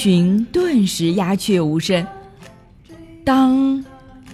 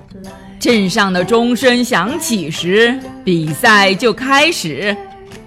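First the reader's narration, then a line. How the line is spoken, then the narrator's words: Loud royal announcement. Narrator (Chinese): 国王他大声地宣布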